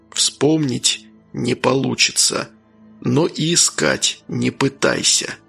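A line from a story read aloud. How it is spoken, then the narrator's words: Quiet. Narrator (Russian): тихо произнес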